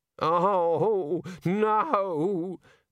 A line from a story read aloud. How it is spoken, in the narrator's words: the senior wrangler moaned